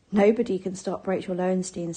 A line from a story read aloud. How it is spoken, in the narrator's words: said Anna